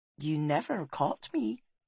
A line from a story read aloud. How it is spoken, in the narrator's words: she said softly